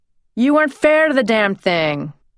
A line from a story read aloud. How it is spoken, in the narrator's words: he shouted